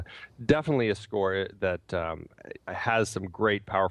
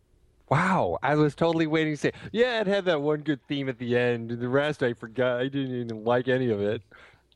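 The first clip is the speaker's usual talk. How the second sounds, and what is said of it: Imitates another person's voice. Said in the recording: “That was my best Pete impression.”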